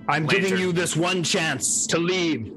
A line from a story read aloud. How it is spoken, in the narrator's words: I shout down the path to him